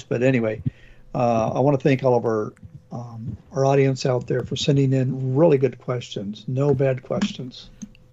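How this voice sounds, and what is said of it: Hoarse voice from a cold. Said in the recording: “Got a little bit of a cold today, so losing my voice.”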